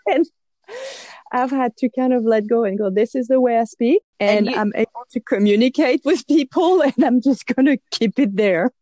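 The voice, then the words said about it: French accent in English. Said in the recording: “My accent is horrible. Oh, you can really hear the French in this.”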